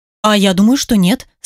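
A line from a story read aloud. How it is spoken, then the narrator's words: Plain. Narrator (Russian): сказала Аня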